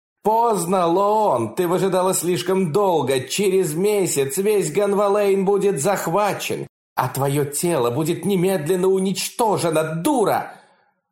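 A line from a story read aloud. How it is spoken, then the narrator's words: Furious scream. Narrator (Russian): Она яростно закричала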